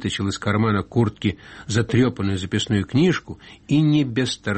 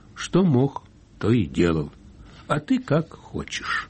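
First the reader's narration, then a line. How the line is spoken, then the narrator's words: Sad. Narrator (Russian): Семин понял иронию и сказал грустно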